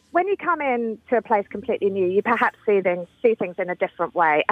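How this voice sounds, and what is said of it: British accent. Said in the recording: “we can tell from your accent that ... you're a British transplant”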